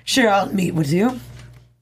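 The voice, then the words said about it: Poor fake accent. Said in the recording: “That was a horrible accent, but I tried to do a fake accent.”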